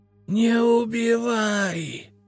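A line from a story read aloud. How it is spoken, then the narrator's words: Hoarse rasp. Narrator (Russian): снова прохрипела Генриетта Абелардовна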